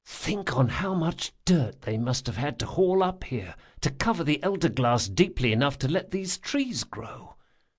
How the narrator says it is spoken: whispered Locke

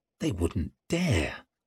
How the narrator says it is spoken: he breathed

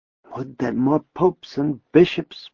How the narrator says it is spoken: Joachim murmured

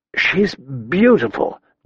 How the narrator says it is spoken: Danny murmured

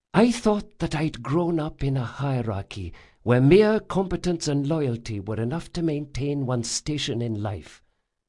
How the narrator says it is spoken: she whispered

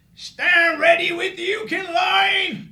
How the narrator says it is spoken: Shad yelled across the digging formhole

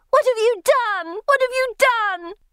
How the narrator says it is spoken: screaming

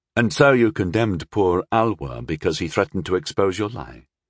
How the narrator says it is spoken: Rondal said flatly

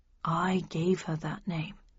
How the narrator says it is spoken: he said quietly

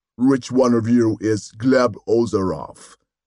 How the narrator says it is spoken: asked the first, the synthesized voice booming out of its meshwork face

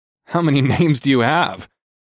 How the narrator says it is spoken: I chuckled

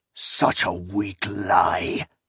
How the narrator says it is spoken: Notsera growled

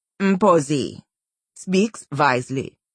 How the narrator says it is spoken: Gandhari said, her voice slow and oratorical

